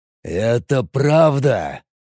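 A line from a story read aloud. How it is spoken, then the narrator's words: Growling boss. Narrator (Russian): зарычал босс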